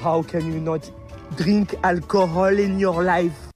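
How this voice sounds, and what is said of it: Made-up-sounding French accent. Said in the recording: “his accent to me sounds totally and completely made up ... it sounds like when Steve Martin was in the Pink Panther ... That sounds like Steve Martin doing a French accent.”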